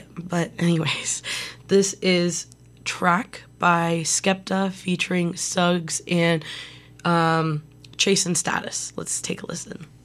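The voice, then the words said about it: Screechy, strained sore-throat voice. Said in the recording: “my voice is starting to kind of annoy me too a little bit ... it's very screechy. It's like nails on a chalkboard ... I'm going to continue drinking tea and taking Halls to fix this”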